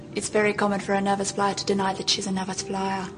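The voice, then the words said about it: Put-on South African accent. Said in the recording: “These are people doing South African accents. ... Australian woman doing a South African accent. ... That's her fucking accent.”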